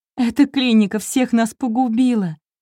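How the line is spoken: Bursting into sobs. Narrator (Russian): Эмма разрыдалась

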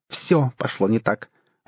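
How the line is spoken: Sharp. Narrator (Russian): резко сказал Ломакин

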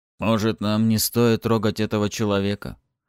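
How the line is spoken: Uncertain question. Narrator (Russian): неуверенно спросил один из полководцев

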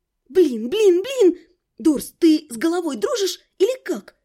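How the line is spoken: Indignant hiss. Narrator (Russian): Возмущенно прошипела

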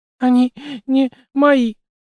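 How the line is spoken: Blurted out between sobs. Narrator (Russian): выпалила она между рыданиями

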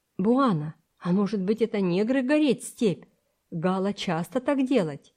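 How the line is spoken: Plain. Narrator (Russian): сказал Самбо

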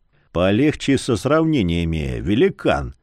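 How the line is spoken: Quiet but menacing. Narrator (Russian): Тихо, но грозно изрек

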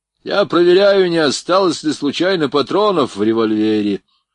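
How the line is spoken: Loud, mocking. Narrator (Russian): громко проговорил Борейко насмешливым тоном

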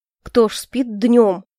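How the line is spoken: Snorting. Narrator (Russian): хмыкнул Альфред

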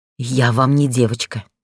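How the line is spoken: Furious breathy outburst. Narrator (Russian): выдохнула яростно

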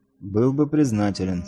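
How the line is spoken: Calm. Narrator (Russian): спокойно ответил светлорожденный

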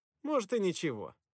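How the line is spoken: Forced cheerful reply. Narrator (Russian): нарочито бодро ответил я

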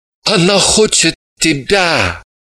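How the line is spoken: Moaned reply. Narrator (Russian): простонал в ответ Ваник

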